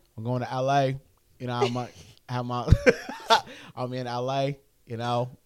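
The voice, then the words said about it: Put-on Los Angeles accent. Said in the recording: “What the fuck accent is that, bro? ... try to do some L.A. accent.”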